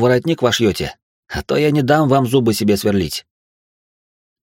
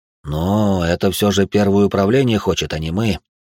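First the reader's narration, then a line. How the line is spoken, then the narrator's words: Sighed. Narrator (Russian): вздохнул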